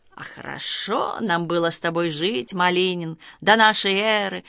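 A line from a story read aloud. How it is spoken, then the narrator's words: Dreamy drawl. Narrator (Russian): мечтательно протянул Юра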